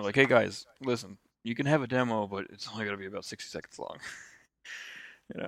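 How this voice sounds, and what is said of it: Beetlejuice character voice. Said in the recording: “I like to think that Nintendo sounds like Beetlejuice. So that was my Beetlejuice impression.”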